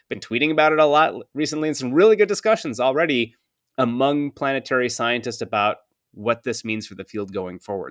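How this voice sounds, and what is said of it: Energetic, excited speaking. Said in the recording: “hear the energy in my voice”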